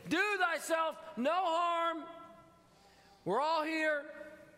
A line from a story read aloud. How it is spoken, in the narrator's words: Paul cried with a loud voice, saying